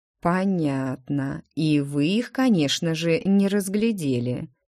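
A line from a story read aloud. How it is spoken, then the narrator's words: Drawling. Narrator (Russian): протянул Адриэн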